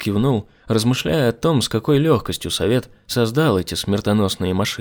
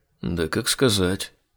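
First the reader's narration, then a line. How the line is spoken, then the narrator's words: Muttering. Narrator (Russian): пробормотал Айзек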